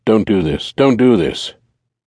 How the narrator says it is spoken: Gordon mumbled out loud

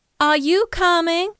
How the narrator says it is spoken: called loudly, smiling

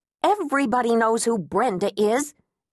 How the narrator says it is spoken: Agnes snapped

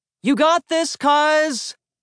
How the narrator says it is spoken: hollered

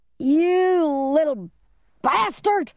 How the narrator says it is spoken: the man screamed

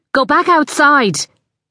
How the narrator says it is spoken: Ali snapped

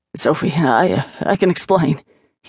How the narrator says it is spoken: he stammered

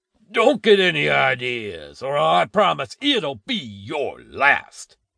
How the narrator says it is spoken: the man roared

